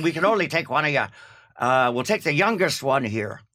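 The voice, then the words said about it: Put-on Irish accent. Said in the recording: “That's my English Irish accent.”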